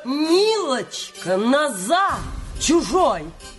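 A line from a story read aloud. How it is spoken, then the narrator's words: Old woman shouting. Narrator (Russian): старушка, которая крикнула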